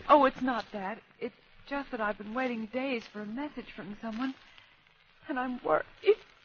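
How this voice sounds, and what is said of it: Pure American Yankee accent. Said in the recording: “Say, you're an American. ... that accent's pure Yankee.”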